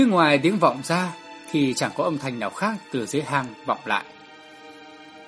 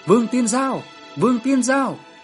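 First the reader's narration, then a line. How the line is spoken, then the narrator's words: Anxious shouting. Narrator (Vietnamese): Tôi và Tôn Kim Nguyên đều vô cùng nôn nóng hét to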